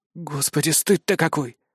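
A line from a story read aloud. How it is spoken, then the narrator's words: Breathed out. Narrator (Russian): выдохнул Лиам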